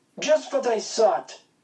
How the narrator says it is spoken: Horst yelled

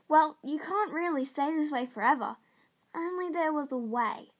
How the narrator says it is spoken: Jordan sighed and said

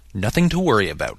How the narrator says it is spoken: he said firmly

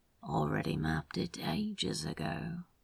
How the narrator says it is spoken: he mumbled with a smile

